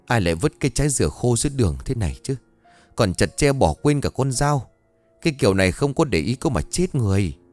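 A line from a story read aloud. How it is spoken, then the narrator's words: Old woman's angry muttering. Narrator (Vietnamese): bà tức mình lẩm bẩm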